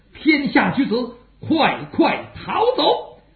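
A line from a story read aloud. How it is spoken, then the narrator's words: Shout. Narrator (Chinese): 雪天王、贾父喊了一声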